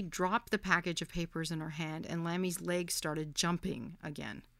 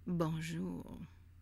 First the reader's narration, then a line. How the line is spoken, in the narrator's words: he said in a dreamy French accent